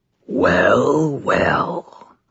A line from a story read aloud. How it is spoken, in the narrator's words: rasped the maimed vampire